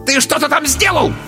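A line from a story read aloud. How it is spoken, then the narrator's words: Squealing centaur. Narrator (Russian): взвизгнул кентавр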